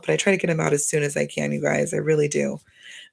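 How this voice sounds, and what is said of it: Slightly hoarse voice. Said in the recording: “my voice is going a little hoarse”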